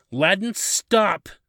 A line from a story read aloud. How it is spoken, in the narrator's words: Kimber yelled, her tone becoming desperate